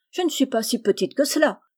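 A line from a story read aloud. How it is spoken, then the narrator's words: Exclaimed. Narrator (French): s'écria-t-elle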